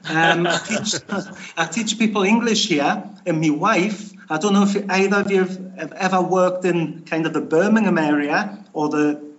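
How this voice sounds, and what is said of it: Strong British regional accent. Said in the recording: “my dodgy accent”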